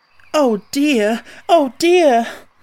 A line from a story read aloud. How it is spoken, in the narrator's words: cried Dorothy, in dismay